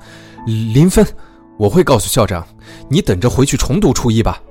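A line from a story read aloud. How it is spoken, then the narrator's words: Furious. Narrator (Chinese): 监考老师勃然大怒，说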